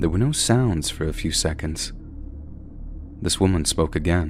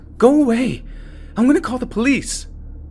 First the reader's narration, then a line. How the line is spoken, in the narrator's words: I finally was able to shout